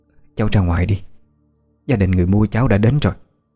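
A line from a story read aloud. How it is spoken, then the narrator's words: Trembling old woman. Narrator (Vietnamese): Giọng bà trở nên run run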